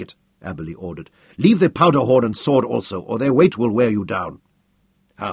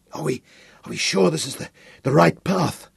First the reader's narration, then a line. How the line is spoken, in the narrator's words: Hal gasped